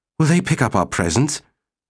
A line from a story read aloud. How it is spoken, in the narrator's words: Babel said nervously